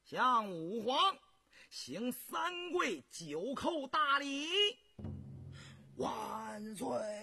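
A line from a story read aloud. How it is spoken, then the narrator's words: Loud shout. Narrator (Chinese): 红石又大声喊道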